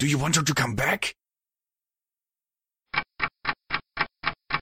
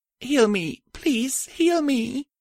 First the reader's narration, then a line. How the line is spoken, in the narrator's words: I whimpered